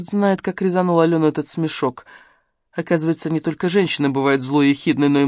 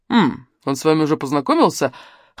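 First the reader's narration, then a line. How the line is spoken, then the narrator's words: Snorting. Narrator (Russian): хмыкнул Бергер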